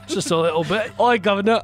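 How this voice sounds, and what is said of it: Put-on Cockney accent. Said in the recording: “You went Cockney there for a second.”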